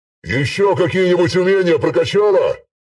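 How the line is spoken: Loud question. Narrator (Russian): Громко спросил

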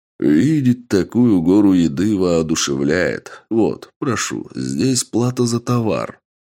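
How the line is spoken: Smiling, cheerful. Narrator (Russian): широко улыбаясь, сказал генерал

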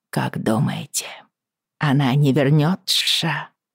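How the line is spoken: Quiet, wary. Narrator (Russian): Миссис Берсли говорила тихо, словно опасаясь, что нас подслушают

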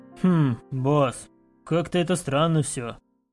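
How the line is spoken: Mercenary's grumble. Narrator (Russian): пробурчал наемник по кличке Хмурый

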